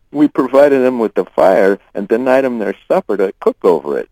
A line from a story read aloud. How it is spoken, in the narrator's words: Ty laughed